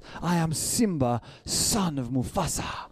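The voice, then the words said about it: Attempted African accent. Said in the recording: “It's my best attempt at an African accent.”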